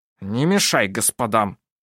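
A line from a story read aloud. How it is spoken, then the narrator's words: Grumble. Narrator (Russian): проворчал мужчина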